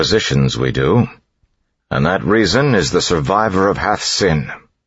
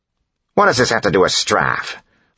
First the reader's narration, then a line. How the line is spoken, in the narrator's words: Phylon snapped